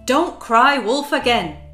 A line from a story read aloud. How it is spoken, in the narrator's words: shouted one of the men